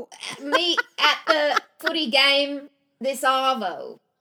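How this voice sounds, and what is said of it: Put-on Australian accent. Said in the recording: “we'll have Australian accents the next time ... a totally good accent ... here's a practice”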